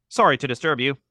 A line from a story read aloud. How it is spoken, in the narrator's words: the man said cheerfully